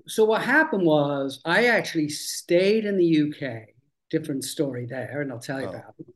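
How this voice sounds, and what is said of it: Lingering non-American accent. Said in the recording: “the accent is still there”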